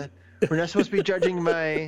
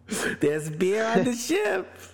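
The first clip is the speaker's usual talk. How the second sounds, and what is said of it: Rocket impression sounding like Edith Bunker. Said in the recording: “When did Rocket become Edith? From Edith Bunker. ... It sounded like Edith. ... last second, not considered attempt to do a Rocket impression.”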